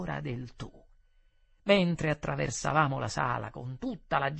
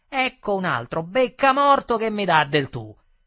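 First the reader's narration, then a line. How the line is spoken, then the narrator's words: Shouted in the face. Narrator (Italian): mi gridò in faccia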